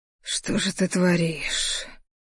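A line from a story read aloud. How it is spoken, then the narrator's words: Strained, barely restrained whisper. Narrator (Russian): прошептал вымученный, едва сдерживая себя в руках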